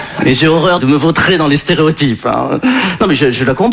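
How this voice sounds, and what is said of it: Usual voice. Nothing is said of it.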